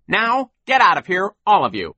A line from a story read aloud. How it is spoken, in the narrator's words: Sir barked